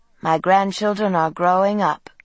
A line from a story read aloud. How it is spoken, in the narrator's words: she said, sighing